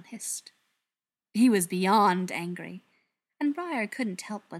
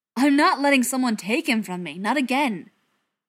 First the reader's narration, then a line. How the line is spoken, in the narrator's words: Cardin exclaimed